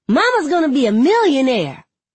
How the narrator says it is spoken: Sikani shouts

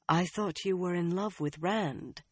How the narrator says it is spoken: she said, making her voice gentle

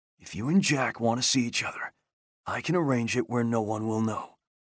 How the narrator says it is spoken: He whispered in her ear

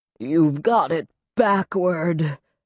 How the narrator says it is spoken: she gasped, bleeding

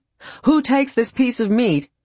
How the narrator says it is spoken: the first foreman called out

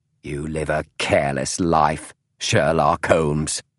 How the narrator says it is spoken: she said fiercely, no hint of apology in her voice

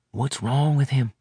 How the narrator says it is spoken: Leslie asked in a quiet voice

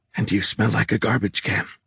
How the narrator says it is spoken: Ruckley said, her voice coming out in nearly a croak

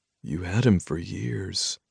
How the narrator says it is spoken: I said gently

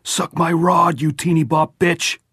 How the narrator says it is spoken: yelled

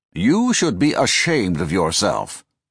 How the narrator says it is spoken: Condon chided him in his pompous, professorial tone

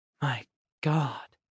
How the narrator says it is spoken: Nor said, voice just above a whisper

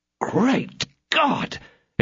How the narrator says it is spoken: exclaimed he

